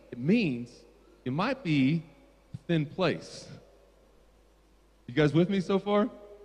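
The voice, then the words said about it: American accent. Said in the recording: “Is my American accent already betrayed me?”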